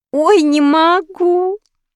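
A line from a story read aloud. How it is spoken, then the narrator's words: Laughing girl. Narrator (Russian): хохотала девчонка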